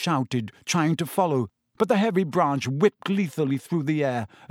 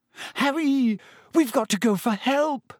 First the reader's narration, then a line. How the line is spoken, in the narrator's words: Hermione gasped